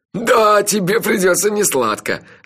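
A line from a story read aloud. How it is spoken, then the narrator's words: Loud laughter. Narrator (Russian): расхохотался Анчифа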